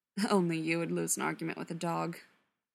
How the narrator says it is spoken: Mikey chuckled

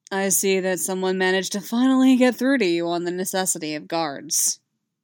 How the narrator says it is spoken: he said dryly

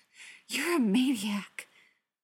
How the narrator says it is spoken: Loki panted

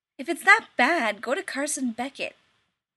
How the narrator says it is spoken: Rodney snapped

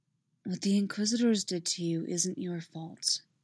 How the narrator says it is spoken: he said softly

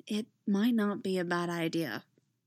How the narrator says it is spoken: she said quietly

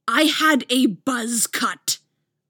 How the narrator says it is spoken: Apollo snarls

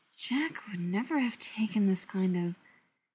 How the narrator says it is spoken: Carter murmurs

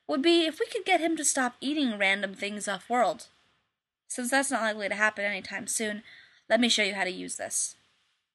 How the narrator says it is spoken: Shepard said dryly

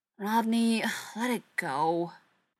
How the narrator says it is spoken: Shepard sighed

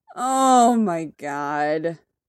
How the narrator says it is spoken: Tony groans

